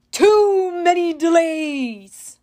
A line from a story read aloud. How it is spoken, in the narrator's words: the monster bellowed